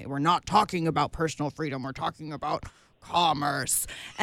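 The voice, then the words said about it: Impression of Michael Weinstein. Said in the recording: “good imitation of him”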